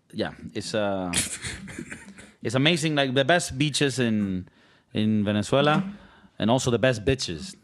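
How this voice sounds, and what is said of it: Venezuelan Spanish-accented English. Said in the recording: “my accent makes me pronounce it weird”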